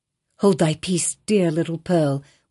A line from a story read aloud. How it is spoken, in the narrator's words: whispered her mother